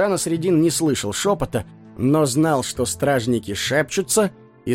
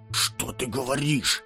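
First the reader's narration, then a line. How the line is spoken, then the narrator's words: Frightened whisper. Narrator (Russian): испуганно прошептал второй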